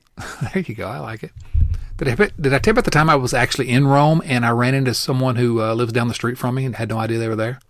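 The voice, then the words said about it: Country American accent. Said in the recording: “my ridiculous accent ... you think I got some kind of country accent”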